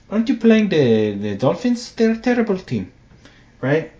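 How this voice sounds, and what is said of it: Attempted Brazilian accent. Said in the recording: “I don't know how to do a Brazilian accent. I'm going to do my best.”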